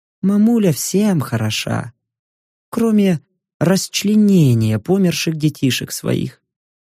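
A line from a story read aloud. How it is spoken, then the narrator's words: Quiet, smiling. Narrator (Russian): тихо улыбнулась нимфа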